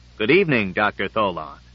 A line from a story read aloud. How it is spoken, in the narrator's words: saying firmly